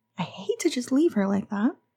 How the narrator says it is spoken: Connie said earnestly

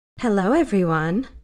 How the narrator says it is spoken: Lara purred, her voice low and sultry

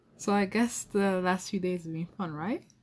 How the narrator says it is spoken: I said, trying to contain my laughter

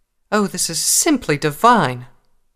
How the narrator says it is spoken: Rarity exclaimed

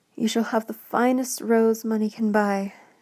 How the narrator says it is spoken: exclaimed Mr

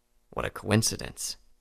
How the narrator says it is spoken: muttered

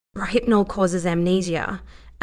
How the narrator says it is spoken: Alan said in a whisper

